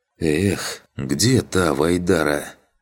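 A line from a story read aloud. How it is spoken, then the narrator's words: Sigh. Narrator (Russian): вздохнул я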